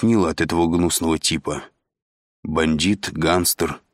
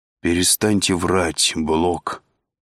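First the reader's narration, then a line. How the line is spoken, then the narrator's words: Weary. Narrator (Russian): устало сказал Андрей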